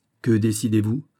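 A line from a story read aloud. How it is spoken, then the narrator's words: Plain question. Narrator (French): demanda Raoul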